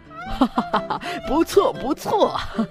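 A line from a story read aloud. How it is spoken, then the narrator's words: Hearty laughter. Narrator (Chinese): 老虎大王哈哈大笑，连声说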